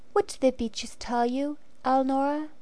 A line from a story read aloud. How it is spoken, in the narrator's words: asked gently